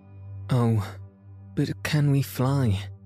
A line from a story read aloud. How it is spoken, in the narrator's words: Jane said, standing anxiously